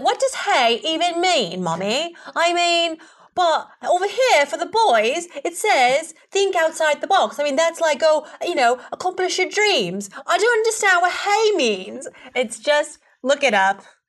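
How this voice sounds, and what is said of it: Weak put-on British accent. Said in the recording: “She does a much better British accent than I do.”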